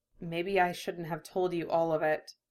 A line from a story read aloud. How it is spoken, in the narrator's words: he said quietly